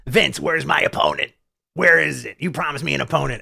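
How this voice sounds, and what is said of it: Imitates another person's voice. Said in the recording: “this is my Seth impression.”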